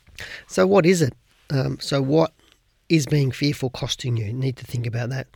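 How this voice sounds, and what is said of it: Croaky voice. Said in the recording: “My voice is a little croaky this morning.”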